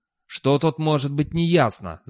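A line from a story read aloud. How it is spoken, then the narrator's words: Growling. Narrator (Russian): зарычал Достабль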